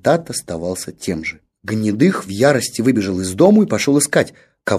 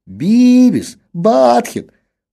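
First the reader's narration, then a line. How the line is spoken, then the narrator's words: Teenager's desperate howl. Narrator (Russian): в отчаянии взвыл подросток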